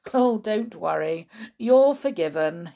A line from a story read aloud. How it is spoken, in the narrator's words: chuckled